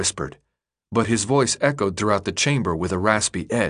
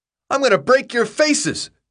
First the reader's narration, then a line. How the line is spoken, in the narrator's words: he screamed, so loudly Thomas almost held his hands over his ears